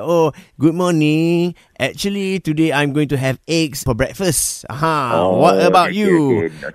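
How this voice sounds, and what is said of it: Put-on Malay accent. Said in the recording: “I put on a Malay accent to pretend to be a Malay guy”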